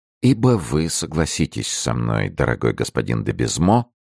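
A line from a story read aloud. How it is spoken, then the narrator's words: Impassive, flat tone. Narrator (Russian): продолжал Рамис тем же бесстрастным тоном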